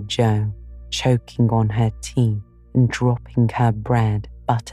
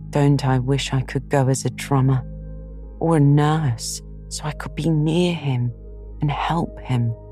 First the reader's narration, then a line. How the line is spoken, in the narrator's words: said Jo with a groan